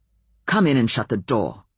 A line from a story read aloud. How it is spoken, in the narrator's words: Ben said harshly, in a voice he really shouldn't have used to his alpha